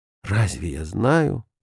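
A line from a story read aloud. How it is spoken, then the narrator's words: Barely audible mutter. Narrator (Russian): пробормотал он чуть слышно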